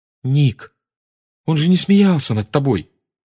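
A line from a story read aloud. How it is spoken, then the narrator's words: Exclaimed. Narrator (Russian): воскликнула Гермиона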